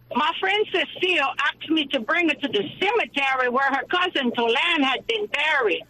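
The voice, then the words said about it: Thick Cajun accent. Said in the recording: “I am going to do this joke with a thick Cajun accent”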